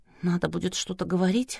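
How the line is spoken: Whisper. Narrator (Russian): шепнула Надя Плуянову

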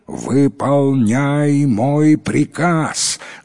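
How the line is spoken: Menacing shout. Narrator (Russian): грозно закричал Аббас

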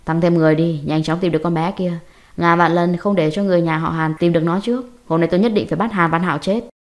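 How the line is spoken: Cold man. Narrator (Vietnamese): Sang mặt ông ta lập tức lạnh lẽo, ông ta lạnh lùng

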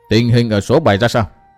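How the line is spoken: Cold question. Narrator (Vietnamese): Hàng tử khách lạnh lùng hỏi

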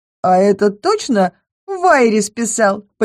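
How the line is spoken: Curious, giggling. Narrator (Russian): полюбопытствовала Ренара, хихикая

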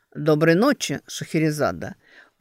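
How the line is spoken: Deep velvety voice. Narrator (Russian): произносит он глубоким бархатным голосом

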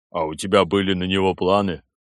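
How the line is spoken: Snorting into beard. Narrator (Russian): Клим снова хмыкнул в бороду

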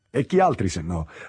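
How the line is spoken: Laughing reply. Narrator (Italian): rispose, ridendo

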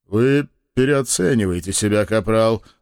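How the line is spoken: Boss's snort. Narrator (Russian): хмыкнул шеф

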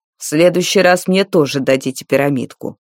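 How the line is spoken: Angry scolding. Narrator (Russian): сердито выговаривал Дарвал

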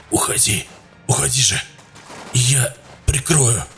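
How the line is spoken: Hoarse. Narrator (Russian): хрипел Саид

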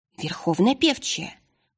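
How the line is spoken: Whispering in chorus. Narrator (Russian): зашептали дочери северных ветров

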